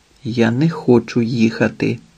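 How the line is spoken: Quiet speech. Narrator (Ukrainian): тихо промовила Рая

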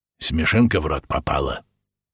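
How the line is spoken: Angry question. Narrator (Russian): сердито спросил Ефим

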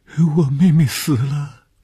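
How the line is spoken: Pitiful girl crying. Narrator (Chinese): 这是一个可怜的女孩，见着红玉便哭起来

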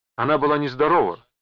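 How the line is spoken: Shouting. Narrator (Russian): прокричала мадам Мартель

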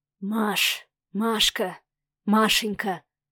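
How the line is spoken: Anguished drawn-out whisper. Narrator (Russian): шептал Савелий с тягучей мукой в голосе

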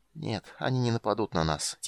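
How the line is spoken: Quiet. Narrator (Russian): тихо сказал он

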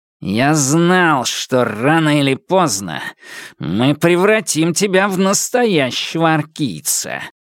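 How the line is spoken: Growling. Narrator (Russian): прорычал Темса

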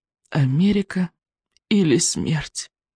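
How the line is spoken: Group moan. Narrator (Russian): Простонали Икинг, Рыбьенок и Камикадзе

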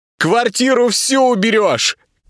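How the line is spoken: Shouting from behind door. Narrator (Russian): кричала за дверью Верочка

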